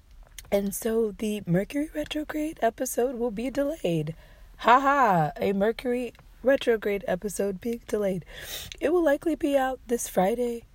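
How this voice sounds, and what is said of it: Badly strained, damaged voice. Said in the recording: “as you can hear, my voice is all the way fucked up.”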